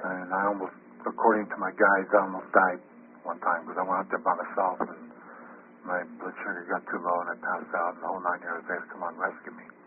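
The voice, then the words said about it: Soft, low-toned quiet speech. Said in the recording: “You're speaking in low tones a lot ... talking soft”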